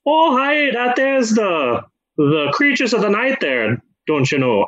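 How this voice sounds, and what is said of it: Irish accent drifting into Minnesotan. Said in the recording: “Irish Dracula impersonation, but it's difficult ... I start Irish and then end up Minnesotan”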